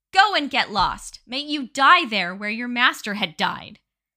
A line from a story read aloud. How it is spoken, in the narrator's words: the lad's sister screamed and yelled, calling